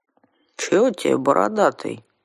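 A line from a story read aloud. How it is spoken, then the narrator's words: Calm grumble. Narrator (Russian): невозмутимо пробурчал домовичонок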